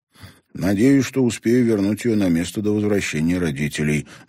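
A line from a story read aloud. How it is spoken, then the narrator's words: Gloomy. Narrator (Russian): мрачно поделился он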